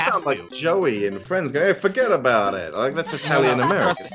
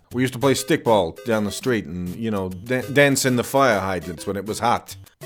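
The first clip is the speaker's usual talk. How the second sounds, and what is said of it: Put-on Brooklyn accent. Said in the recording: “asking you to do a Brooklyn accent. Your American American accents are my favorite thing... you're so good at them... I'm doing Kevin Pollak doing Christopher Walken”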